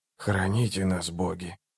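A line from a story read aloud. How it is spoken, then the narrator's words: Whispered. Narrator (Russian): прошептал Барук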